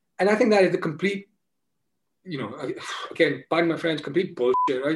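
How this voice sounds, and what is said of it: Speaks with a noticeable accent. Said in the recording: “now I have this accent ... Just because you have an accent.”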